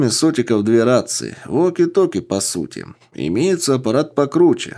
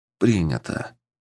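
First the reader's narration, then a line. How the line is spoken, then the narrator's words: Quiet. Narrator (Russian): Тихо ответил подполковник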